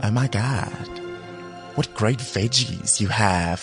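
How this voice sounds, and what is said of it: Pseudo-American voice trying British accent. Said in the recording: “it's still a pseudo-American... Trying to be British accent”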